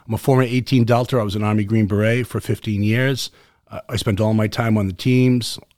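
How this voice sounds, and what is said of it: Boston accent, speaks rather fast. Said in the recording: “my Boston accent ... my Boston accent tends to have me speak rather fast”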